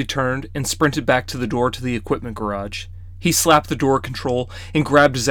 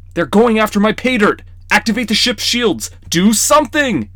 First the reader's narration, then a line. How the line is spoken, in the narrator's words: Charlie shouted